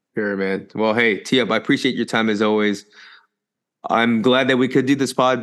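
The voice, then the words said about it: Tired-sounding voice. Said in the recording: “I don't know if you can hear it in my voice, but I'm a little bit tired.”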